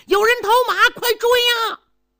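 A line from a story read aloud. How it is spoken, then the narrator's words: Soldier shouting. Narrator (Chinese): 当兵的 高喊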